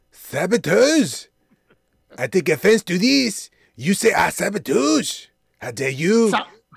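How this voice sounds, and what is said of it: Bad Pepe Le Pew cartoon accent. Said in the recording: “a really bad Pepe Le Pew impersonation”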